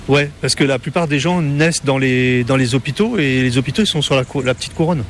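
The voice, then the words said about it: Parisian French accent. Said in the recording (French): “Vous n'avez pas l'accent créole quand vous parlez ... j'ai gardé mon accent parisien quand même”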